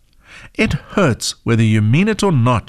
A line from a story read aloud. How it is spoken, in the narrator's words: she grumbled